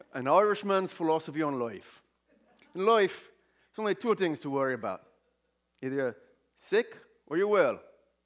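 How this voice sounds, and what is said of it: Put-on Irish accent. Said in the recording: “I was going to do it in my Irish accent... Irish accent?”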